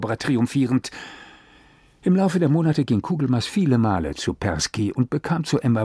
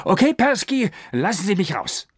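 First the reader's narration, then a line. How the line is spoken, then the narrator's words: Calling out. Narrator (German): rief er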